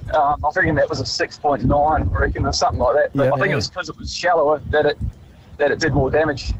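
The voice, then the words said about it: New Zealand accent. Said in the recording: “You could hear his Kiwi accent.”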